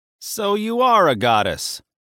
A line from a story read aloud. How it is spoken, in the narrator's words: Hermes shouted enthusiastically